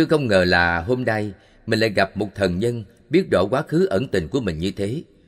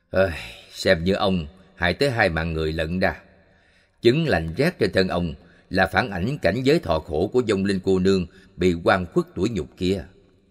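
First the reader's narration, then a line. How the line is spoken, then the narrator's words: Sighing. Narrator (Vietnamese): thở dài bảo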